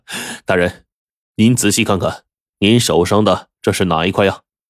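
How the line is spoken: Smiling. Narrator (Chinese): 空空一笑说

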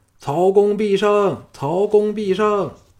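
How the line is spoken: Crowd chanting in unison. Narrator (Chinese): 千百齐民同声喊叫

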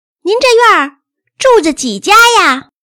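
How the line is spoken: Loud shout. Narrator (Chinese): 宋妈大声的喊

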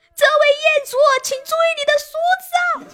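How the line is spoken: Shocked shout over microphone. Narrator (Chinese): 物管惊呆了，在话筒里喊

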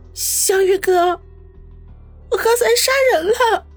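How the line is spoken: Tearful. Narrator (Chinese): 于雨溪顿时止住了哭声 泪眼婆娑的说道

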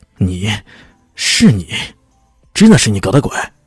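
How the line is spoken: Stunned, through gritted teeth. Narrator (Chinese): 屈尔迪愕然了，咬牙切齿的说道

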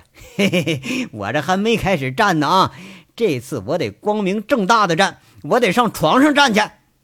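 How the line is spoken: Hearty laughter. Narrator (Chinese): 大笑着，爽朗的笑着说了

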